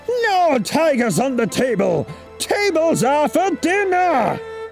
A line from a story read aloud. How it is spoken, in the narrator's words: he roared